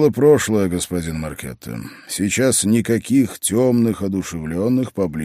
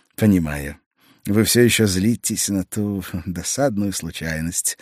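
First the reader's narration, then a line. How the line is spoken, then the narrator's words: Meek sigh. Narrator (Russian): смиренно вздохнул он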